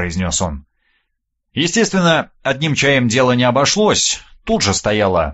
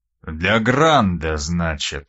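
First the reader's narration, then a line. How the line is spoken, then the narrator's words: Drawled. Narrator (Russian): протянул он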